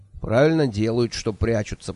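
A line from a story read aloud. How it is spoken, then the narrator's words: Grumbling. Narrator (Russian): проворчал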